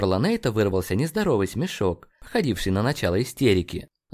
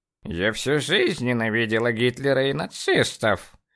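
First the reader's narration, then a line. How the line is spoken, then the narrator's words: Tense old woman's voice. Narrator (Russian): напряженным голосом сказала бабка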